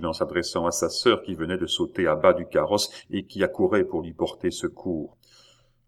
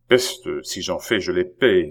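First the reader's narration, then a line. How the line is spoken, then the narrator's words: Growled. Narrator (French): gronda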